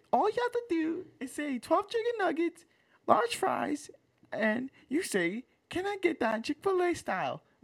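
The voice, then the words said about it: Imitates another person's voice. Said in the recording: “that was such a good impression”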